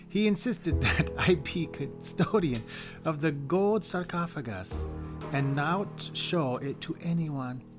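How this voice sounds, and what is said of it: Convincing put-on accent. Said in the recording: “accent. ... It's actually really good.”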